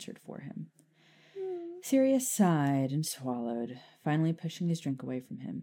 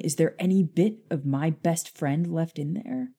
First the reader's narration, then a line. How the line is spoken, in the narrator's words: Harry asked angrily